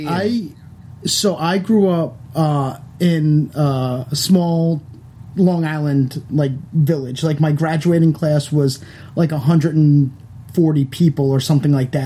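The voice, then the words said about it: Long Island accent. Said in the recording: “I love your accent ... You're not from New York. You're from Long Island.”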